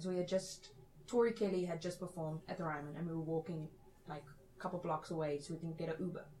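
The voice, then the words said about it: British-sounding accent. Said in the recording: “people kind of imitate my accent all the time. They think I'm British.”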